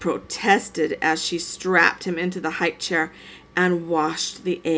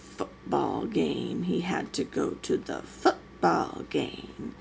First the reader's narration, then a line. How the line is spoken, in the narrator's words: she muttered the words under her breath